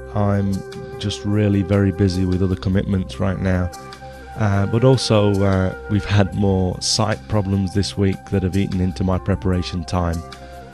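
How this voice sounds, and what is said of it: Stuffy voice with a cold. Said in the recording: “I've caught a bit of a cold, and you can probably tell from my voice.”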